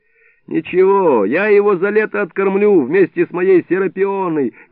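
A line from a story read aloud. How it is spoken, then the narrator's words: Cheerful. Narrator (Russian): говорит Илико, весело потирая руки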